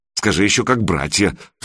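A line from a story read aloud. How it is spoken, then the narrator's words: Snorting. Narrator (Russian): фыркнул Санек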